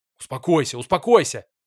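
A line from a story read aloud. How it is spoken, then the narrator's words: Loud bark. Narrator (Russian): гаркнул Дмитрий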